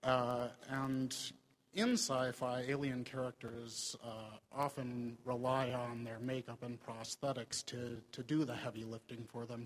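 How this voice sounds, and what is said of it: Minnesota accent. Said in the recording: “You've got a very nice accent.”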